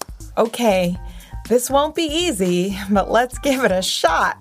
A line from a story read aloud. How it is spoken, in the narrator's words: exclaimed Power Cat